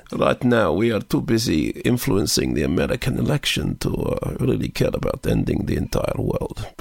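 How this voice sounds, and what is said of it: Put-on Russian accent. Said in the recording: “here I am doing Russian”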